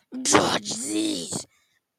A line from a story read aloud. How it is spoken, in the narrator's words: he growled